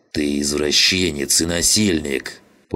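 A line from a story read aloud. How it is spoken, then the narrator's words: Angry snarling growl. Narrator (Russian): прорычал зло, скалясь Жиган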